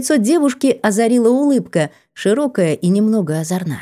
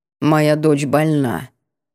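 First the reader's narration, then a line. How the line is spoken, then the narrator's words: Sudden creaky voice. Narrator (Russian): неожиданно проскрипела урга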